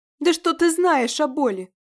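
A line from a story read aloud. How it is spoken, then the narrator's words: Very loud roar. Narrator (Russian): взревела Варянка так громко, что воздух снова затрещал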